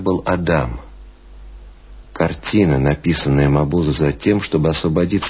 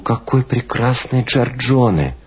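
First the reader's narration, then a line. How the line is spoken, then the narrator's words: Exclaiming. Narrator (Russian): Пуссен воскликнул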